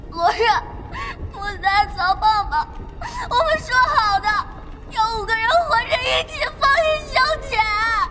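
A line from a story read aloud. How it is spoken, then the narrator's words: Sobbing. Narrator (Chinese): 他忽然痛哭失声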